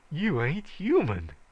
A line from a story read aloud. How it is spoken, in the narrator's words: he gasped